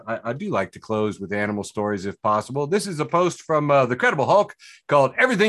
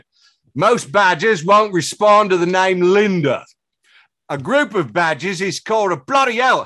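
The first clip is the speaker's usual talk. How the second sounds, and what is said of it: Put-on Cockney accent. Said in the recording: “I'm going to read it in a Cockney accent.”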